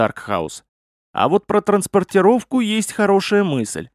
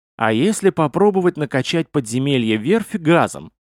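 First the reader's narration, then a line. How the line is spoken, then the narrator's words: Plain. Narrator (Russian): сказал Мигунов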